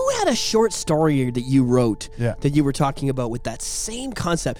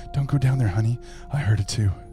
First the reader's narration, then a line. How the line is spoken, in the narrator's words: a whisper from the closet saying